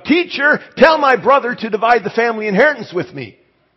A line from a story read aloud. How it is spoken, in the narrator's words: someone came and yelled out from the crowd